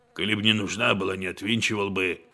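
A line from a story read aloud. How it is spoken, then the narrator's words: Hoarse rasp. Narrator (Russian): хрипит Денис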